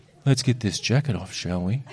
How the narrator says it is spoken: He says softly

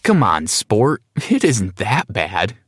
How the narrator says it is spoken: chuckled

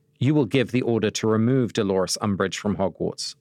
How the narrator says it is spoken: said Dumbledore

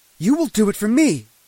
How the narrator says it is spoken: she shouted in my face

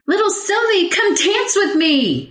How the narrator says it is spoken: she cried

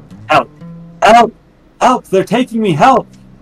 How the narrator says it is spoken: He is going to start yelling

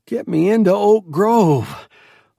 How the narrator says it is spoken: Lois gasped

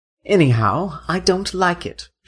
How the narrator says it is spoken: she said

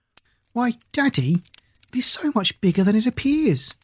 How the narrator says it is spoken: she exclaimed

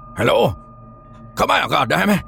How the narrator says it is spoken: he called out, his voice immediately being swallowed up by the heavy atmosphere

